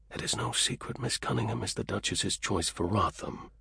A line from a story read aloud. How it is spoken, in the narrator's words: Carew said quietly in her ear